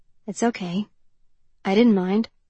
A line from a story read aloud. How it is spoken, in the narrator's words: he said softly